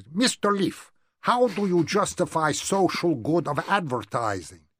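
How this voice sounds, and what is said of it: Convincing imitated foreign accent. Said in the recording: “quite a convincing accent, actually.”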